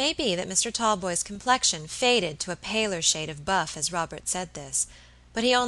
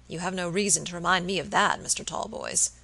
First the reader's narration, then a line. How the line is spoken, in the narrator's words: answered Robert gravely